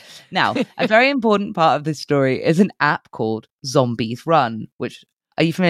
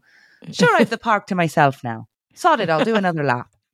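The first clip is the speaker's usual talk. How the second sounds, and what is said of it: Put-on Irish accent. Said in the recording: “that sounds like it should be read in an Irish accent now... Sorry, Tanya, if you're not actually Irish.”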